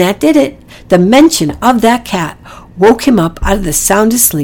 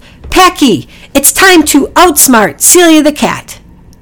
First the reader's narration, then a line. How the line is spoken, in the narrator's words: Priscilla yelled